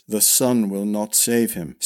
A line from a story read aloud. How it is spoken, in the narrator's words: said Briand flatly